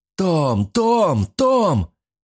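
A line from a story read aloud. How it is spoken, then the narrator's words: Fog shouting. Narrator (Russian): кричал туман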